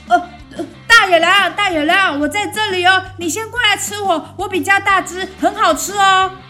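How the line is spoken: Sheep shouting loudly. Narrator (Chinese): 卷卷羊朝着大野狼大喊

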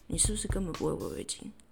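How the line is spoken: Cold question. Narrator (Chinese): 他 冷冷的在后面问说

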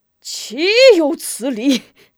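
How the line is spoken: Furious roar. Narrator (Chinese): 门霸将酒杯往地上一摔，吼道

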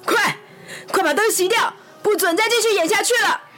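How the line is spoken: Tense, loud shout. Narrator (Chinese): 克劳迪紧张的大喊

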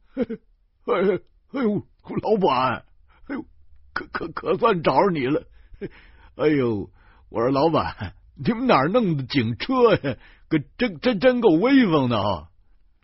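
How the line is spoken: Laughing heartily. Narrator (Chinese): 徐大光哈哈笑了

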